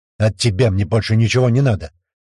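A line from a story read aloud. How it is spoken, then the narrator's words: Sharp reply. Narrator (Russian): резко ответил Хусейн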